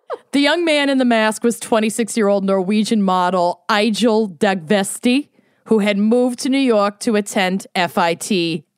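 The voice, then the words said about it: Put-on Borscht Belt accent. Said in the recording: “I'm committing to this accent for the entire case ... It's the Borscht Belt.”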